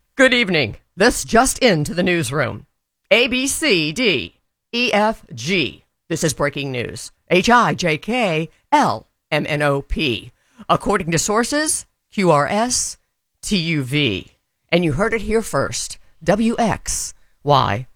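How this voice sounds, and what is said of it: News anchor voice. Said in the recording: “I'll give my impression. ... A news anchor doing the alphabet.”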